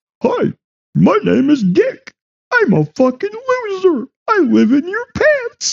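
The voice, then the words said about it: Cartoon character voice. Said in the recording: “cartoon voice”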